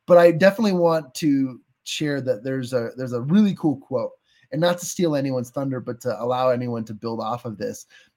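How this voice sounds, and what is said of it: American Western accent. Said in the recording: “my crazy Western accent”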